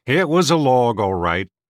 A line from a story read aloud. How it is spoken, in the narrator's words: admitted Markle in a disgruntled tone